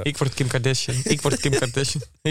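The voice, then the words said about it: Put-on accent, chanting manifesting voice. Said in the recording (Dutch): “waarom is dit accent erbij? ... Dat is mijn manifesteerstem.”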